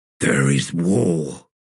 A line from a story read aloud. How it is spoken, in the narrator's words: Mappo grunted